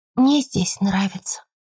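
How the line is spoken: Sighing mumble. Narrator (Russian): вздохнув, пробормотала

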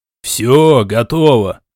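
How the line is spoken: Hurried shout. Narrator (Russian): Поспешил крикнуть он

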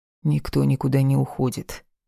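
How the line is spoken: Deliberately calm, rock-firm. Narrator (Russian): нарочито спокойно и гранитно-твердо произнес Марат

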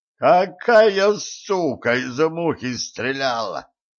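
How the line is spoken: Roared. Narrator (Russian): взревел тот

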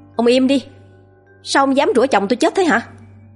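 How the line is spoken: Loud shout. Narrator (Vietnamese): Cô con dâu ông Miền hét lớn

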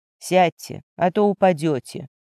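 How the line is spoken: Low, chilling voice. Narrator (Russian): проговорил низким голосом, от которого по спине пробежали мурашки

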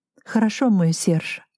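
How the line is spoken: Affectionate reply. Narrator (Russian): ласково отозвалась

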